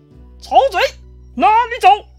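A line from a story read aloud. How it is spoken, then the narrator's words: Shouting. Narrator (Chinese): 张飞冲着曹操大喊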